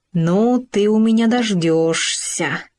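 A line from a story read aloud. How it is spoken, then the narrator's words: Through gritted teeth. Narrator (Russian): сквозь зубы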